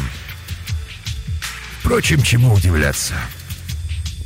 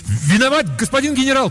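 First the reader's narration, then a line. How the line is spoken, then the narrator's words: Shouting after someone. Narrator (Russian): крикнул я вслед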